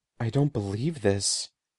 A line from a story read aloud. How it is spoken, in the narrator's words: Eddie murmured